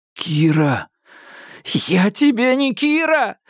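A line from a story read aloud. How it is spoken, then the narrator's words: Tearful female growl. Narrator (Russian): зарычала она сквозь слезы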